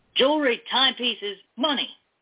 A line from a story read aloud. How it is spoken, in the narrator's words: he barked